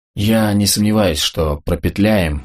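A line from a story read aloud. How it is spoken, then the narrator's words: Hoarse. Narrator (Russian): хрипло начал Денис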